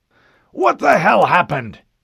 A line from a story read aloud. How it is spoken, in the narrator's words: the Admiral shouted